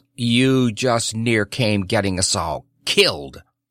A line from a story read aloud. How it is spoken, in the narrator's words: snapped the Guesser